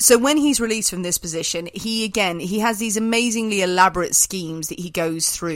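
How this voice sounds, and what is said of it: Usual voice. Nothing is said of it.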